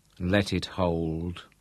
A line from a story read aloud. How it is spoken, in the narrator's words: Lothar murmured